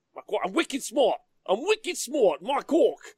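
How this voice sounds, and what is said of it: Weak attempt at Boston accent. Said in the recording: “I can't say it in an American accent. Boston. ... I can't do it.”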